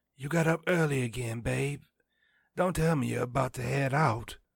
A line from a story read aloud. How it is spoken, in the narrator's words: intoned sleepily